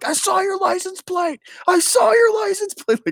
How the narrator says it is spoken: yelling

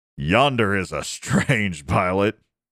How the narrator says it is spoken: Eric laughed

